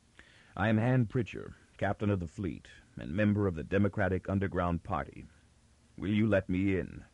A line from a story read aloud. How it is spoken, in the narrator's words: took an imperceptibly longer breath and then said calmly